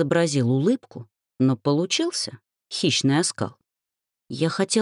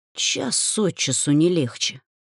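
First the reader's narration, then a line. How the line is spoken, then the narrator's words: Muttering. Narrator (Russian): пробормотала я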